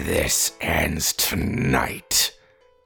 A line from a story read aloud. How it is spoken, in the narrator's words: Alpha growled